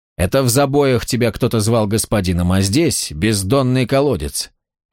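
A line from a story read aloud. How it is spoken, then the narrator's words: Very calm. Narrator (Russian): Вен говорил очень спокойно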